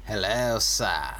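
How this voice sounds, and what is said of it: Exaggerated evil villain voice. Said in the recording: “That's his evil voice.”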